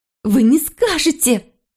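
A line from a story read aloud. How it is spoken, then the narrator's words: Hysterical, uncertain shout. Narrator (Russian): истерически крикнула, неуверенно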